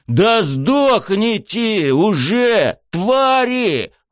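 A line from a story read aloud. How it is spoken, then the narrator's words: Roar. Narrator (Russian): взревел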